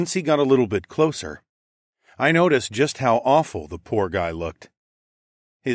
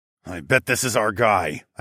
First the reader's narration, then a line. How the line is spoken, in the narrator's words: I growled